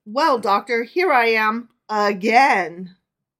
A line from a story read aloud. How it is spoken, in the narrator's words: the miser exclaimed